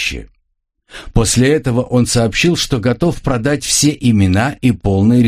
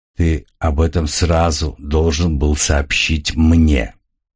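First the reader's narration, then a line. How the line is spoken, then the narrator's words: Dead, cold voice. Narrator (Russian): мертвым и холодным голосом произнес Сал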